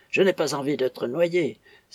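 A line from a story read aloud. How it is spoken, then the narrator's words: Hoarse exclamation. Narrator (French): s'écria le citoyen de cette même voix rauque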